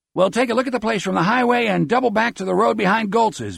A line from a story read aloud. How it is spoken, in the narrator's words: Beezer shouts